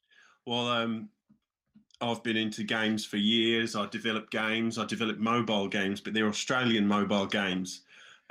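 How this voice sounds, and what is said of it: Put-on accent. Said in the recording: “do you think the accent will stay in place until then?”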